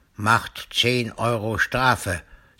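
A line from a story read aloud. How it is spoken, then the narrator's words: Stern policeman. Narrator (German): sagt der Polizist streng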